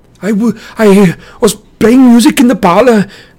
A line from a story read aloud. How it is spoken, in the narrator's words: he stammered